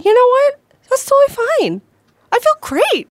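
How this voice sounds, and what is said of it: Unusually high-pitched voice. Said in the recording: “My voice is so high-pitched.”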